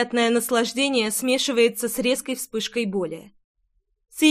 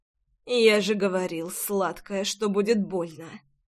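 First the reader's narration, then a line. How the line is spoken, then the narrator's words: Quiet. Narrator (Russian): Тихо проговаривает он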